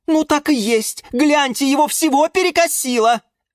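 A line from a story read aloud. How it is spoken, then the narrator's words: Louder frightened yell. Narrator (Russian): Завопил от испуга Жорж еще громче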